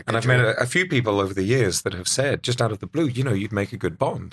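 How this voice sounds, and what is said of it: British accent. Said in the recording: “It's the British accent ... Everything sounds better with a British accent.”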